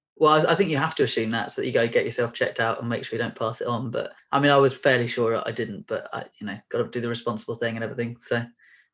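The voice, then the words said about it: Congested voice from a cold. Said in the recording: “I've got a little bit of a cold ... I've got a bit of a cold, so my voice might be a bit dodgy.”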